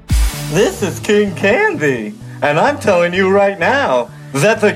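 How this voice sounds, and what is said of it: Impression of King Candy. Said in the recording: “King Candy ... listener voice impersonation ... what an incredible job”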